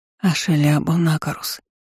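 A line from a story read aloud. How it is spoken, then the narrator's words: Quiet whisper. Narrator (Russian): шепнула тихо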